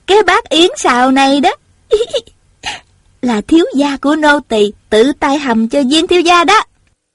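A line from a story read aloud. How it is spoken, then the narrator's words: Giggling. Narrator (Vietnamese): Tiểu Cúc vừa cười khúc khích vừa nói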